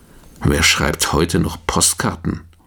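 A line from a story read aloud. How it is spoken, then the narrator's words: Muttering. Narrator (German): murmelt er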